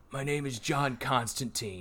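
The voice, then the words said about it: Imitates another person's voice. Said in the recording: “That very good impression.”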